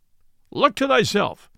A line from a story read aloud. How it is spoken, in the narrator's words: cried Robin